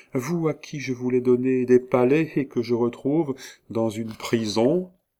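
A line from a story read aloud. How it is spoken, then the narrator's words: Melodious voice. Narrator (French): dit-elle d'une voix mélodieuse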